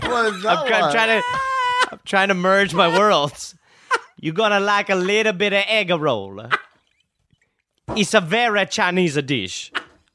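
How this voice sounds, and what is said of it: Put-on mixed Chinese-Italian accent. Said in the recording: “What is that accent? ... It's Chitalian. ... I'm Chitalian.”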